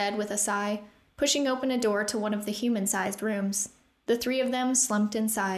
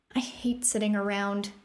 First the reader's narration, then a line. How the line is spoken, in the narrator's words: Rune said bitterly